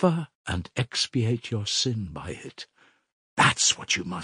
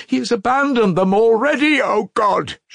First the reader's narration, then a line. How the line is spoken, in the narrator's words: she cried